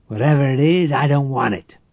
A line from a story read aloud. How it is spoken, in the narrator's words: Quizard spat